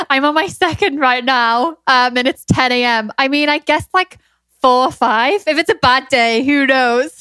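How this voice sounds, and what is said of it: Strong northern English Geordie accent. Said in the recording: “You really are English. But you know what's interesting about your accent? Your accent almost sounds like it leans Irish to me ... I'm what we call a Geordie in the UK. It's a very strong northern accent.”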